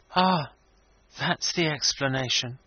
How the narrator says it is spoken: he quietly remarked

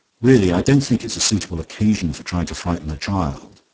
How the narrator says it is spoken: Twyford said sharply

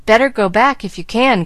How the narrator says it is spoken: cried Gus, who was anxiously peering out, and in spite of his efforts to seem at ease, not enjoying the trip a particle

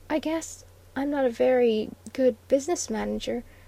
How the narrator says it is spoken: faltered the red-lipped voice with incongruous pathos

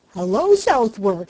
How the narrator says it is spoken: he cried

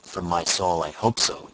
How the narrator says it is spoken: exclaimed Lawton

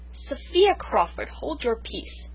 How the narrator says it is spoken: she said sternly

